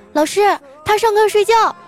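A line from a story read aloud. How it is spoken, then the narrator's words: Several girls calling out. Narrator (Chinese): 几个女同学喊道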